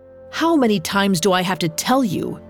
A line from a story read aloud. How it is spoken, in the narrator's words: snarled the man